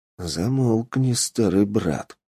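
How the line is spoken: Quiet and menacing. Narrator (Russian): угрожающе тихо произнес Индрик

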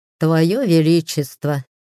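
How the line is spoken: Snorting hmph. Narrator (Russian): хмыкнул Аскар

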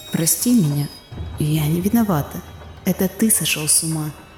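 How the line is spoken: Whisper. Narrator (Russian): Прошептала

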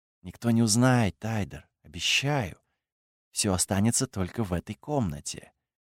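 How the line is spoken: Intimate whisper. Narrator (Russian): прошептала

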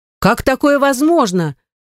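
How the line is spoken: Exclaimed. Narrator (Russian): Воскликнула

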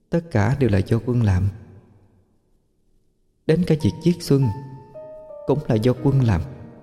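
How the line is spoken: Soft quiet voice. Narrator (Vietnamese): Tiếng chị May vang lên khe khẽ

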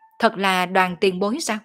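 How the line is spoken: Sudden loud laughter. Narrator (Vietnamese): Ô Quảng chợt cười to

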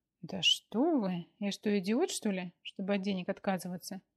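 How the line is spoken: Joyful exclamation. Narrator (Russian): Радостно воскликнул Ефимов

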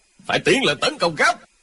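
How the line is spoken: Shout. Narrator (Vietnamese): Lộc Trường Khách quát lên

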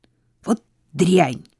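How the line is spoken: Sharp, over the phone. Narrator (Russian): резко сказала Сара на другом конце провода

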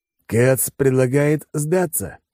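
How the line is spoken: Snorting hmph. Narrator (Russian): хмыкнул Алекс

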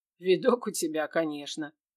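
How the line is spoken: Amused snort. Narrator (Russian): хмыкнул мир

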